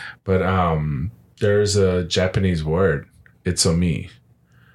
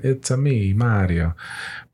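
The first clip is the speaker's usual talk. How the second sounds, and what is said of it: Exaggerated Italian accent. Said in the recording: “Like an Italian accent.”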